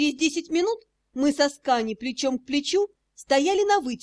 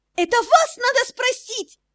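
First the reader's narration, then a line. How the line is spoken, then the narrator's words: Indignant shriek. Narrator (Russian): негодующе взвизгнула Мира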